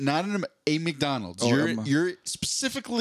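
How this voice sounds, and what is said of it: Usual voice. Nothing is said of it.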